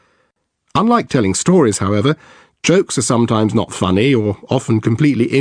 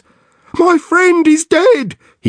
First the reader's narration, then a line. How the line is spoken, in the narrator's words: cries